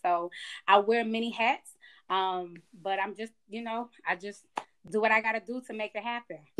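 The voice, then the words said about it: Georgia twang, Southern US accent. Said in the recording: “I'm picking up on your accent ... You got that Georgia twang now ... I think I picked up this little Georgia twang.”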